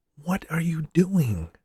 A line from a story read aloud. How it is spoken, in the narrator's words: Paul whispered